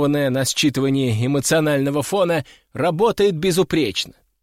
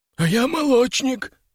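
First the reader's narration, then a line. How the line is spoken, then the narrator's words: Hoarse rasp. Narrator (Russian): прохрипел второй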